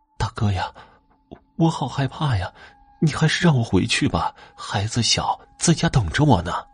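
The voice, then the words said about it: Tearful, crying voice. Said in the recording (Chinese): “她的声音带着哭腔”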